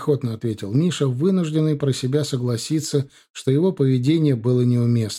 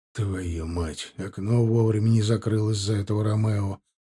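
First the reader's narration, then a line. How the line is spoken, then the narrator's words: Grumbling. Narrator (Russian): проворчал Марат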